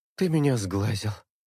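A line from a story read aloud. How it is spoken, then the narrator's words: Tired. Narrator (Russian): устало выдаю я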